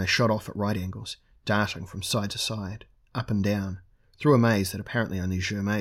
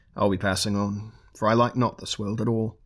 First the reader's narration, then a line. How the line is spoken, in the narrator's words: he chuckled